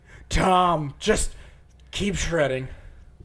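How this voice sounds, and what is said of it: Bad imitation of another person's voice. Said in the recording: “Was that a Donald Trump impression? ... It's bad. ... that awful, awful that fucking really, impersonation.”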